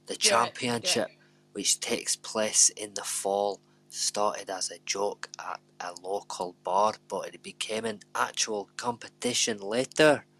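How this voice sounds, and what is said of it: Put-on Scottish accent. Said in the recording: “I'm going to do it in a Scottish accent now ... I went a bit... what's he called? The old Labour MP ... I can't do it”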